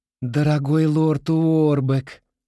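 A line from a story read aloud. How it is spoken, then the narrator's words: Exclamation. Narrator (Russian): воскликнула она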